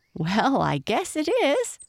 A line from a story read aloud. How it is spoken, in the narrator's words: laughed Lightfoot